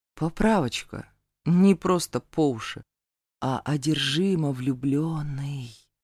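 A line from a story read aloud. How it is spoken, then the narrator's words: Whisper. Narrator (Russian): прошептал Зейн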